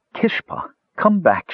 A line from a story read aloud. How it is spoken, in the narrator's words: begged